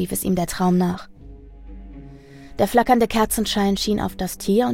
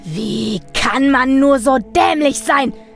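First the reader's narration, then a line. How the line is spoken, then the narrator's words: Full-throated yell. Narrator (German): schrie er aus voller Kehle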